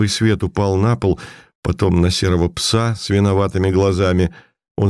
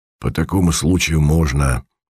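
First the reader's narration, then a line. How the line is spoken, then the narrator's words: Hoarse voice from darkness. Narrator (Russian): ответил из темноты хриплый голос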